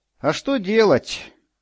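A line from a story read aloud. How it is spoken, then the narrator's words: Sighing in reply. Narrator (Russian): ответно вздохнул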